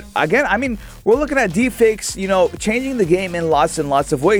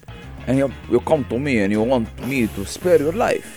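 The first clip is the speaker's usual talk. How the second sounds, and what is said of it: Godfather-style villain voice. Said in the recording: “Think of it like the Godfather ... That's like the villain voice of...”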